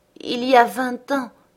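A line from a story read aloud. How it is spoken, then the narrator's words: Moaning voice. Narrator (French): gémit la voix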